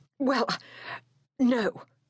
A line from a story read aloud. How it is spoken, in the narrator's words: he faltered, hardly knowing what he had said